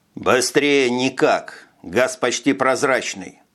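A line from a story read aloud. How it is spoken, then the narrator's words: Calm reply. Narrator (Russian): спокойно ответил Витя, не ускоряя шага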